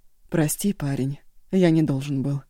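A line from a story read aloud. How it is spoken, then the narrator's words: Calm reply. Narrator (Russian): спокойно отозвался тот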